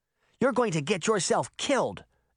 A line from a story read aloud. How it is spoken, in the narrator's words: Daphne said angrily